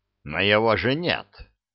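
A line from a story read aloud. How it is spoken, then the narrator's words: Grumbled. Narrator (Russian): Крэмер буркнул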